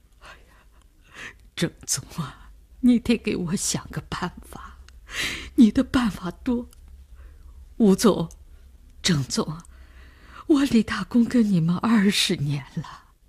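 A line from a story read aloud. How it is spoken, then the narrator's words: Crying. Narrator (Chinese): 李大公他哭了起来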